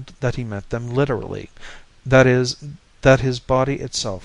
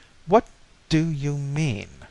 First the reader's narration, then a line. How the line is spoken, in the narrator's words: I said slowly